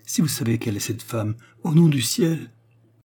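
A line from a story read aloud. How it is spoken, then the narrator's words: Pleading. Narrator (French): supplia Madame Rocher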